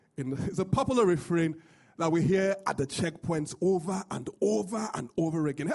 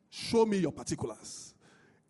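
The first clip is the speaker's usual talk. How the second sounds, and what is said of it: Put-on Nigerian accent. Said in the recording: “If you've been in Lagos, Nigeria ... Oh, sorry, I said that with an accent.”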